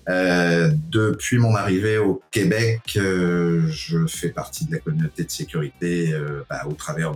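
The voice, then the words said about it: France French accent. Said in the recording (French): “vu mon accent français d'origine”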